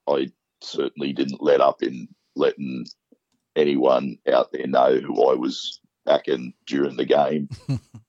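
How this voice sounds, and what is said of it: Rough, strained voice. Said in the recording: “You can probably hear from my voice. ... The battle scars in the voice.”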